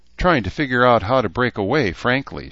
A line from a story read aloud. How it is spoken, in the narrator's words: she said with a sigh